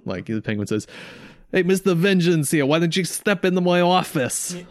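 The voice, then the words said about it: Put-on New York accent. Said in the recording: “am I talking like a New Yorker? Yep.”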